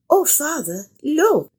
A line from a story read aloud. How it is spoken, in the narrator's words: Lucia cried